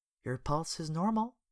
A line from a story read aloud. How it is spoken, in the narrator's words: she muttered to herself